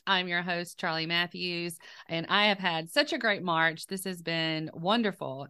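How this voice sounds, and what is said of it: Slightly hoarse voice from a cold. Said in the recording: “I do have a little cold, so forgive me. My voice is a little off this week”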